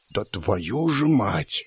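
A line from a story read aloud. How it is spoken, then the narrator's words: Muttering. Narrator (Russian): снова пробормотал я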